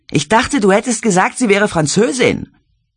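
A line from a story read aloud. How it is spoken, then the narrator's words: Shouting over music. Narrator (German): Die Bandmusik übertönend schrie sie Mark ins Ohr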